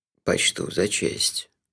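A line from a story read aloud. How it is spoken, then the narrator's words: Solemn. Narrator (Russian): торжественно кивнул Лонли Локли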